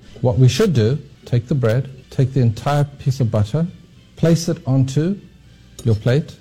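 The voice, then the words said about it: British accent. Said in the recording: “he's got a British accent”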